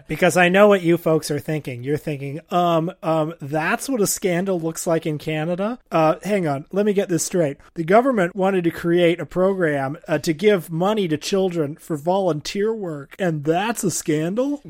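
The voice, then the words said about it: Mocking imitation of annoying online commenters. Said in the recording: “doing a really good impression of some of the most annoying Twitter accounts in this country”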